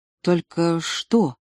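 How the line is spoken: Quiet question. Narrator (Russian): тихо спросила Лена

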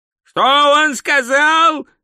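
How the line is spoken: Yelling. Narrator (Russian): заорал Ринсвинд

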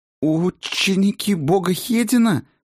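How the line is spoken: Babbling, faltering. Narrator (Russian): пролепетала она

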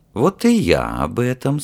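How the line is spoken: Ingratiating, insinuating. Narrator (Russian): сказал Александр вкрадчиво

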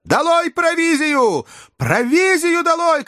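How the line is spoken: Shouted again. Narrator (Russian): крикнул снова доктор

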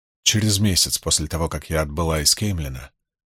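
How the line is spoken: Mutter. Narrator (Russian): пробормотала она

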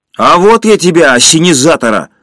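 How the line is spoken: Yelling. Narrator (Russian): заорал Женя

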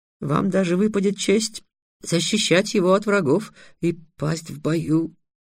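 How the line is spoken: Trembling voice. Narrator (Russian): дрогнувшим голосом сказал Амаль

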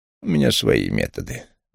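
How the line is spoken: Gruff mumble. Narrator (Russian): буркнул Вулф

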